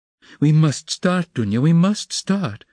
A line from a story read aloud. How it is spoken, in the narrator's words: her mother cried in a flutter